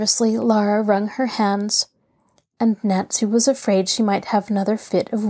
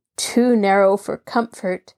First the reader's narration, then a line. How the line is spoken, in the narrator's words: Nancy laughed shortly